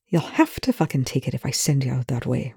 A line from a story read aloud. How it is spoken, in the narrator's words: Rush muttered